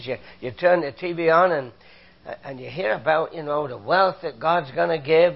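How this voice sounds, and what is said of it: British accent. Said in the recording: “I'm a Canadian, came from Britain, as you can tell from my accent”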